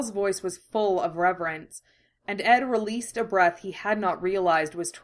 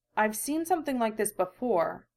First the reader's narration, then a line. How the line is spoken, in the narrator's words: he finally murmured, the flush of intrigue gone from his face